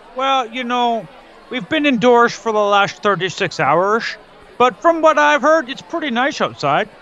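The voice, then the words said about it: Put-on Chicago accent. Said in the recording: “a strange lilt to your linguistic output ... now I'm speaking Chicago”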